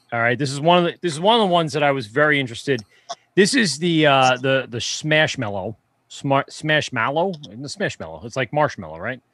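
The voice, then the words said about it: New York accent. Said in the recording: “That's my New York accent coming through.”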